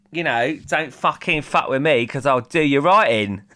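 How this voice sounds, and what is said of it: Put-on Essex / Danny Dyer Cockney accent. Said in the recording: “Can you do an Essex accent? ... I think you're going more like Danny Dyer Cockney.”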